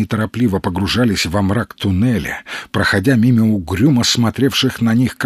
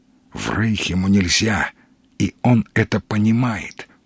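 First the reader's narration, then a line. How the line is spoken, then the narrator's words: Ominous echoing whisper. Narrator (Russian): тихо шептал странник, и его шепот зловеще шелестел под сводами туннеля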